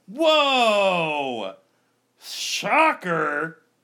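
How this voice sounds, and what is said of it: Sarcastic mock surprise. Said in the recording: “Are you being sarcastic? ... Yes”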